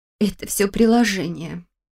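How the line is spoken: Quiet confession. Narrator (Russian): тихо призналась Лиля

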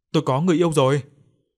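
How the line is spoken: Overjoyed repeated shouting. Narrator (Vietnamese): Chí như vừa bắt được vàng, miệng liên tục hét lớn

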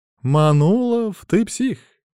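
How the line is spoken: Strangely joyful voice. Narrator (Russian): объявил он странным радостным голосом

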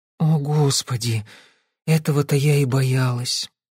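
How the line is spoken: Sighing. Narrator (Russian): Розалинд вздохнула

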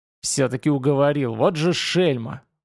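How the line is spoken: Indignant hiss. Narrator (Russian): возмущенно прошипел Хальманов

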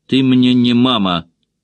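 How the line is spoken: Snapped. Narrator (Russian): огрызнулась Джулия

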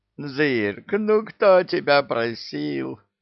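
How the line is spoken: Demon groaning. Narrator (Russian): Простонал бес

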